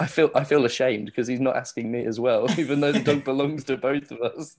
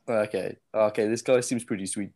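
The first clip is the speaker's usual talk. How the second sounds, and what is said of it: Imitates another person's accent. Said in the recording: “I keep on doing your accent. Damn it.”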